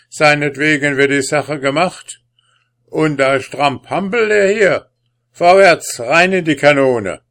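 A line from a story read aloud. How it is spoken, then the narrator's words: Gruff blustering. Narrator (German): polterte der Sandmann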